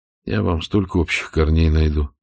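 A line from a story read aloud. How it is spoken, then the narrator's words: Sighing. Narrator (Russian): вздохнул Штирлиц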